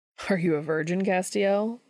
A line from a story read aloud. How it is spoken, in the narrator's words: Dean says, laughing